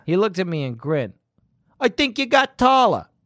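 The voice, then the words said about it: Attempted New Jersey accent. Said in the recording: “It's that accent. ... No, it's hey. Jersey. ... That's good. No, you got it. ... You're almost there.”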